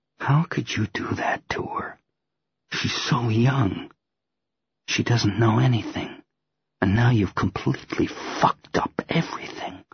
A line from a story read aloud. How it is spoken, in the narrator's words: drop my mocking tone and say softly